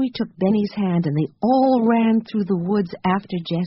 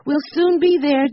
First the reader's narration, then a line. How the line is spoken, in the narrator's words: Jessie shouted back